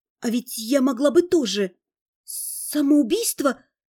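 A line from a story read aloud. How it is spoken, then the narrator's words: Barely audible. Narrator (Russian): Слово еле слышно слетело с губ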